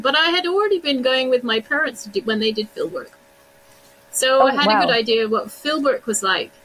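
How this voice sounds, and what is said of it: British accent. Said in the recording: “you have a charming British accent.”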